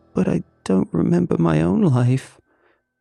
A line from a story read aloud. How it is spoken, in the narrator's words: she whimpered